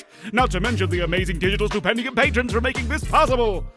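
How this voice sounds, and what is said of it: Imitation of the character Kane's voice. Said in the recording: “Did Kane sound kind of different to anyone else today? ... The very real and not an impersonation Kane”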